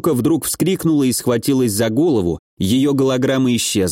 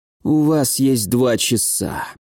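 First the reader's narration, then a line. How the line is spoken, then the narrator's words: Icy tone. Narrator (Russian): ледяным тоном сказал угнетатель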